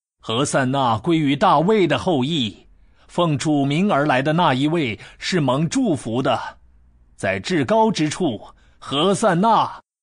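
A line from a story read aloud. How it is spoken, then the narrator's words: Crowd shouting. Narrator (Chinese): 前行后随的人群呼喊说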